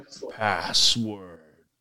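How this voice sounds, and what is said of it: Low feminine monster voice. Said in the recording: “in a low feminine voice”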